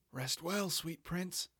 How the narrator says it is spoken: I whispered

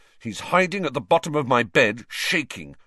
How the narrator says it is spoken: said Ron angrily

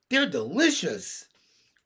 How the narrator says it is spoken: cried Benny

